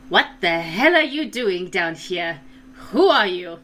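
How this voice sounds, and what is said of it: Drow woman character voice, accented. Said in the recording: “I'm not making fun of your accent. That's just an accent that I also have.”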